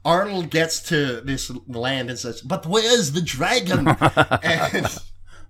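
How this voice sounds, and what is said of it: Bad Arnold Schwarzenegger impression. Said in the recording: “Arnold is one of those voices that is never not fun to do... Even a bad impression is still Arnold.”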